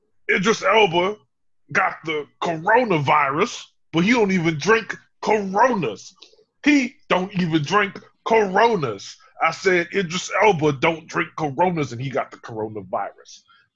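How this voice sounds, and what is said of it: Impression of Umar Johnson. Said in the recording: “Who did I do an impersonation of, by the way? ... Umar Johnson.”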